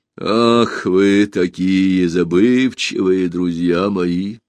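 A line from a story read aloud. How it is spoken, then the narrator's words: Sigh. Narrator (Russian): вздохнул корабль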